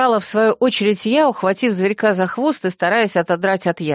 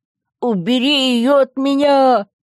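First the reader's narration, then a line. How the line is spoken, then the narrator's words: Howled. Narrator (Russian): взвыл тот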